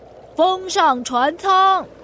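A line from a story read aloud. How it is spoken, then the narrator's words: Crowd shouting. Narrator (Chinese): 所有人都在大喊大叫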